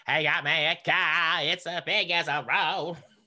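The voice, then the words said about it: Imitates another person's singing voice. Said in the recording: “He sings like this. That's just how he sounds. ... this is like dead on. Like, this is a really good impression.”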